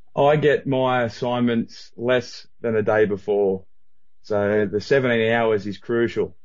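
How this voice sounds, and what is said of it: Australian accent. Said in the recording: “other than your accent? ... the time traveler from Australia ... He sounded, for an Aussie, pretty normal.”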